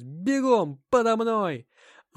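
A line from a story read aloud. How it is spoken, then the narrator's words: Shouting into ear. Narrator (Russian): Анна что-то закричала мне на ухо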